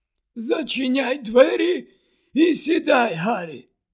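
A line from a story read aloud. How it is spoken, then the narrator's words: Tired. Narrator (Ukrainian): втомлено промовив Дамблдор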